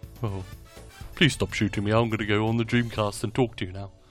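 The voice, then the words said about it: Imitates another person's voice. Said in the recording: “was my Leonard Nimoy impression.”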